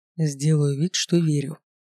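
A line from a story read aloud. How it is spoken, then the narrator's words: Gloomy. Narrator (Russian): мрачно ответил дракон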